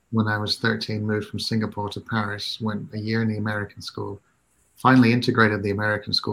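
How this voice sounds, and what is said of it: British-schooled English accent. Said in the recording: “hence the accent... We're going to put him in the British system... that's why I sound like this”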